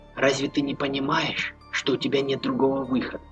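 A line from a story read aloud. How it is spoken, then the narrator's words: Quickening passionate whisper. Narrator (Russian): зашептала, все ускоряя и ускоряя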